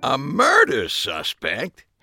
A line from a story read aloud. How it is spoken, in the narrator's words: Harry said again, this time more indignantly than the first